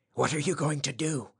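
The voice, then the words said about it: Hoarse whisper. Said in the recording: “he whispered hoarsely.”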